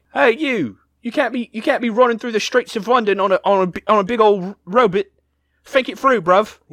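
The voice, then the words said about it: Put-on British accent. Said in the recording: “Wow, that is an offensive accent... You can't be offensive to the British.”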